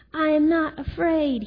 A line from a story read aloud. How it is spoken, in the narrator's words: he shouted